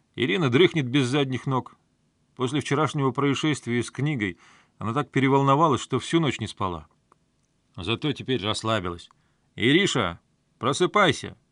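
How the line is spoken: Loud. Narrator (Russian): громко сказал он

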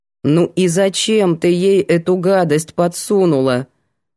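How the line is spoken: Stern question. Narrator (Russian): строго поинтересовалась Светка

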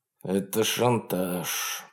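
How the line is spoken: Grumbling, faint smirk. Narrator (Russian): проворчал Вебстер с едва заметной усмешкой

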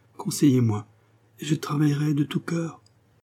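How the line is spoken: Trembling but resolute voice. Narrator (French): répondit-elle d'une voix tremblante, mais résolue

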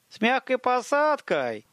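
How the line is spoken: Shouted. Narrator (Russian): крикнула Адди

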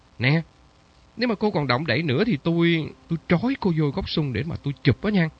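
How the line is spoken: Joking snap. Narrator (Vietnamese): Phong gắt đùa

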